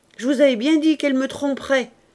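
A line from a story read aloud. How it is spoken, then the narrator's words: Shouting, indignant triumph. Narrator (French): criait Auguste d'un air de triomphe indigné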